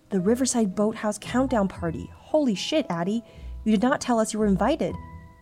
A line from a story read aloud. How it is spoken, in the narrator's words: Bella gasped